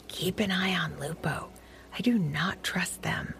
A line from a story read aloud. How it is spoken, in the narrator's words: Taffy gave Tuffy a tight hug and whispered softly into his floppy ear